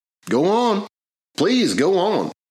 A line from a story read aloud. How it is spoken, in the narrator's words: pleaded Tyler